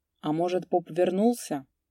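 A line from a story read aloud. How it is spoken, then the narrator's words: Low-voiced remark. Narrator (Russian): заметил вполголоса Васька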